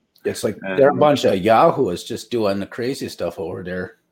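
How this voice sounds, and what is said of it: Put-on rural upper Midwestern accent. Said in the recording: “That's my rural Minnesotan. ... With probably muddy injection of rural Wisconsinite, because my Minnesotan accent is a little rusty ... the upper Midwestern muddy accent that I was just doing”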